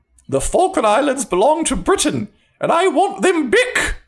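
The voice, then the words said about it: Imitates another person's voice. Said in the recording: “my Margaret Thatcher impression”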